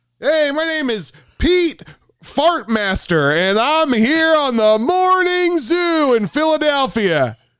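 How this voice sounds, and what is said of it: Weird radio announcer voice. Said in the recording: “Give me a weird announcer voice. Give me a random name and a weird announcer voice.”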